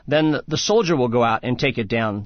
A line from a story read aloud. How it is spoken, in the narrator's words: said the king